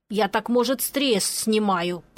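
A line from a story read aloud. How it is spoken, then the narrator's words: Mumbling. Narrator (Russian): пробурчал Пончик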